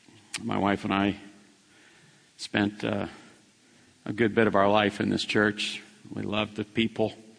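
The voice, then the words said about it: Emotional voice. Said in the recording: “This probably will be a little difficult for me. I'm a little emotional.”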